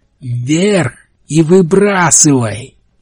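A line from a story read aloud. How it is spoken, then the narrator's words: Shouted. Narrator (Russian): крикнул капитан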